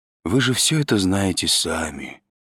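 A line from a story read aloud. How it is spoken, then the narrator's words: Gentle old man. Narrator (Russian): ласково сказал старик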